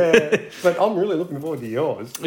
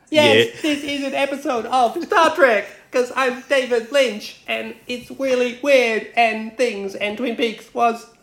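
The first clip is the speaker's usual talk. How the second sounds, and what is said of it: Imitates another person's voice. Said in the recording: “my David Lynch impression”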